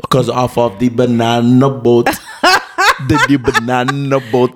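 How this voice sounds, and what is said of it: Put-on Jamaican accent. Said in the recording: “Wow, a Jamaican accent.”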